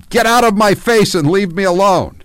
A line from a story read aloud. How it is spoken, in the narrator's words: Porter stood over Paul and screamed